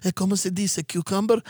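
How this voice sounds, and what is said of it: Put-on Hispanic accent. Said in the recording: “putting on a Hispanic accent”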